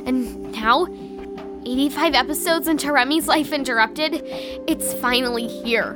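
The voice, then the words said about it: Nervous-sounding voice. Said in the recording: “You sound nervous.”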